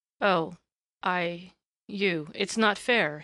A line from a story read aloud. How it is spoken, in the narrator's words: he muttered incoherently